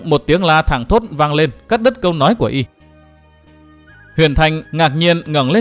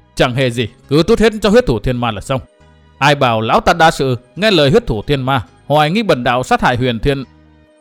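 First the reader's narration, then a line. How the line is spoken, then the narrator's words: Resentful, sulky. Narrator (Vietnamese): Huyền Thanh đạo nhân hậm hực nói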